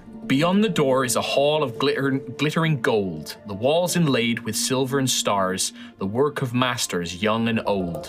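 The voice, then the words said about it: Speaks in a character voice. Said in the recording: “would you like it in the Howard voice, or would you like it in my normal voice?”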